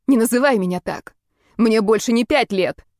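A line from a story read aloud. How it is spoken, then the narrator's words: Clipped, every word distinct. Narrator (Russian): отчеканила каждое слово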